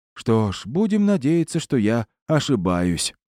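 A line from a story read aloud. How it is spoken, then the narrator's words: Heavy sigh. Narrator (Russian): тяжело вздохнул Глаз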